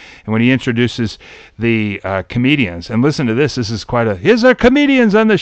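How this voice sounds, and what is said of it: Usual voice. Nothing is said of it.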